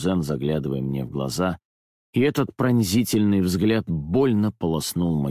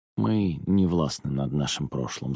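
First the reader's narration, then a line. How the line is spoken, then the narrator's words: Sighing. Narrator (Russian): вздохнул я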